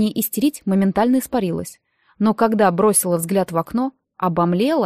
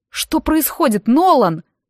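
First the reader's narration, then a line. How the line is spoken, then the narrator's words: Alarmed shout. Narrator (Russian): выкрикнула я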